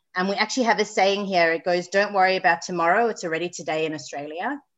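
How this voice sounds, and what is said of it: Slight South African accent. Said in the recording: “I'm sure your listeners can hear I've got a bit of an accent... I was born in South Africa, but I'm now based in Sydney, Australia”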